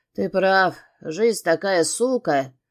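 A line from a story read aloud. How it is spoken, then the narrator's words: Snorting chuckle. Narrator (Russian): хмыкнул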